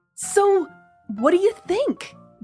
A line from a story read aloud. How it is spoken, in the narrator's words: Doug asked eagerly